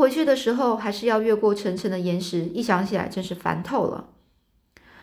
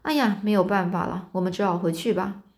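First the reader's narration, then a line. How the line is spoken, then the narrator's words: Sighing resigned voice. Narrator (Chinese): 这个亨利亨利啊，就叹了一口气说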